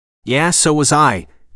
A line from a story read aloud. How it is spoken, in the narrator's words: Pierce said dryly